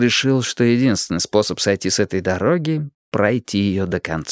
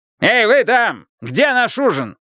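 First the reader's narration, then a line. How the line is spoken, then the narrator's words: Yelling. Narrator (Russian): он снова заорал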